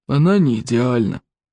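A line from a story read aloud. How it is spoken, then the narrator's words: Gloomy admission. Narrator (Russian): мрачно признал Стоик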